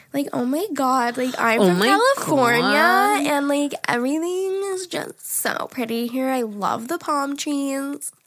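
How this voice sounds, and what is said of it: Put-on Valley Girl accent. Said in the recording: “If you do a Valley Girl accent, that's not... Not like Long Island accent”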